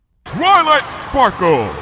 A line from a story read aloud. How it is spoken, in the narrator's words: bellowed Luna over the roar of the wind